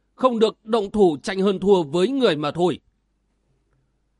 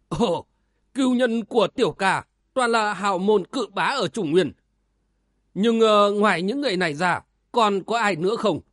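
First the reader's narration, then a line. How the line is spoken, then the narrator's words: Laughing loudly. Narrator (Vietnamese): Cửu Như Hải cười lớn nói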